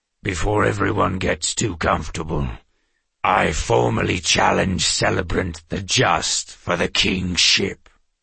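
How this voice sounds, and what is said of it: Deep booming voice. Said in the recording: “boomed a deep voice powerful enough to vibrate the glassware.”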